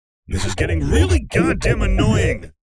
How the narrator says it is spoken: the Jabberwock growled

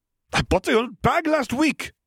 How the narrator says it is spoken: cried

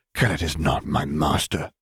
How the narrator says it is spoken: she whispered harshly

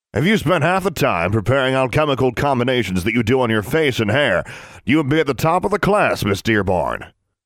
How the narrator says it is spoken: he barked at her

